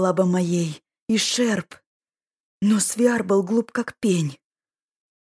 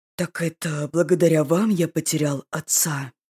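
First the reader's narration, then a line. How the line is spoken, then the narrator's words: Unnervingly calm question. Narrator (Russian): Слишком спокойно спросил Ирвин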